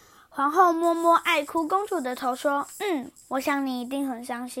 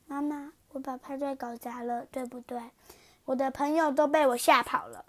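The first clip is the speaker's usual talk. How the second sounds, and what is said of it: Soft whispering voice. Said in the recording (Chinese): “小声地说”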